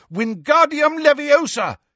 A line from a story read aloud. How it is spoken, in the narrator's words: he shouted